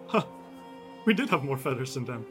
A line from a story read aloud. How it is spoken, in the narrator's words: kind of mumbles and says